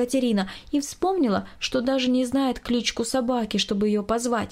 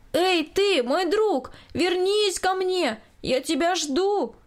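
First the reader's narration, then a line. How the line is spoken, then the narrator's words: Loud shout. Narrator (Russian): громко крикнула Екатерина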